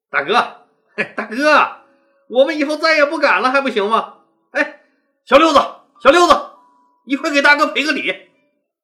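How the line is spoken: Grinning, playful. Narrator (Chinese): 一个个嬉皮笑脸的对彭越说

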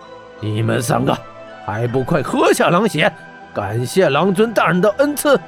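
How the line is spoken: Stern harsh command. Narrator (Chinese): 玄火圣王 对黑山三怪厉声道

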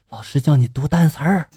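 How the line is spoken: Whisper. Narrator (Chinese): 同桌小声对我说了

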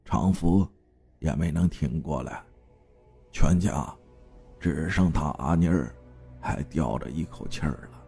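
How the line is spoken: Sorrowful sigh. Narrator (Chinese): 长根叔摇头叹息了一声

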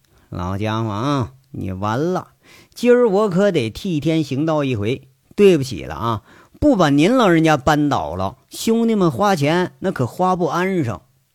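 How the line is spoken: Laughing, muttering to himself. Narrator (Chinese): 杨伟血笑着…自言自语地说一句

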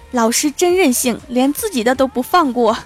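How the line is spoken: Sudden shout. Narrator (Chinese): 一位同学突然大喊

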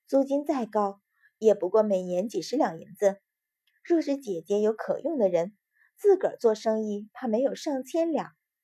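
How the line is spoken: Laughing. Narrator (Chinese): 沈子涵笑道

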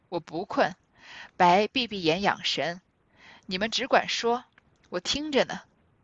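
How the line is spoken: Laughing. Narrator (Chinese): 贾母 笑道

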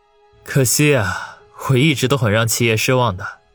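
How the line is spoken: Sighing. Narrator (Chinese): 王宇叹口气说道

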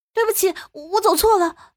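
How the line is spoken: Hurried, flustered woman. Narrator (Chinese): 女人急忙说道

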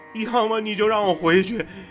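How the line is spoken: Tearful complaint. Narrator (Chinese): 陈峰哭诉着

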